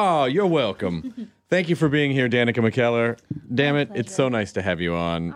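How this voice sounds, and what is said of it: Usual voice. Nothing is said of it.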